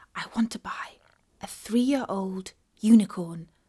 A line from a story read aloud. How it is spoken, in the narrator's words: Katie whispered to it